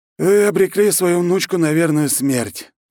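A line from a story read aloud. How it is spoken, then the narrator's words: Exhaled, blunt outpouring. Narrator (Russian): наконец-то он выдохнул и сказал матери все, что думал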